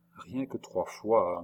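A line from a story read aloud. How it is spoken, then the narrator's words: Murmuring. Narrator (French): murmura André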